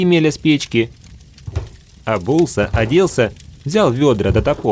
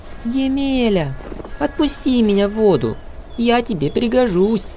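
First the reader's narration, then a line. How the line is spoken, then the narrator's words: Pike speaking in human voice. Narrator (Russian): щука говорит ему человеческим голосом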